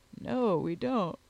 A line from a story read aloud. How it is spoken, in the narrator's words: replied he, with a yawn